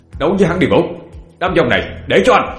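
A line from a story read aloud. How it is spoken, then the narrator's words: Shouting. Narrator (Vietnamese): Anh thét lên với Vũ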